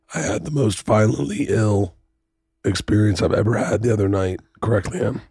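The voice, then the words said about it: Hoarse, strained, nearly lost voice. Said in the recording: “I've lost my voice from throwing up”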